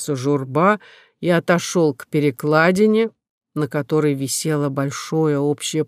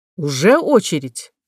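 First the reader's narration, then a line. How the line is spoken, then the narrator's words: Angry question. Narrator (Russian): спросил он зло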